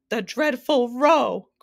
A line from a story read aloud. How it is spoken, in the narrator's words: cried the anguished Din